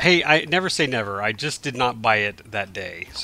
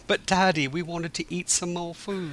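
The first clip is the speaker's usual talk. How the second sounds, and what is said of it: Convincing put-on British accent. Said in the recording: “it's pretty scary how well you did a British accent right just now”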